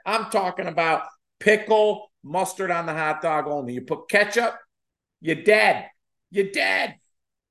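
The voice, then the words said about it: Put-on Chicago accent. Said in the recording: “my special skills include my Chicago accent.”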